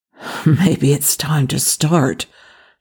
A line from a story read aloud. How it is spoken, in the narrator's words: Jack muttered, not quite under his breath